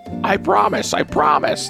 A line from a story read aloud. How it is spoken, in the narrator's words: the oyster catcher shouted between sobs